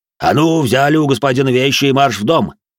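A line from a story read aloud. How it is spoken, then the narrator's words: Barked order. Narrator (Russian): рявкнул на них дворецкий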